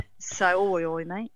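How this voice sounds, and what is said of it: Put-on Essex accent. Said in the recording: “I went right out to Essex ... You got your accent then, huh? ... I kind of pull that out of the bag every now and again”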